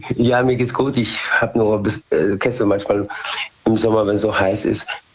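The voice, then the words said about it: Slightly hoarse voice. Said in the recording (German): “Ich bin ein bisschen heiser. ... man ist zwischendurch ein bisschen heiser”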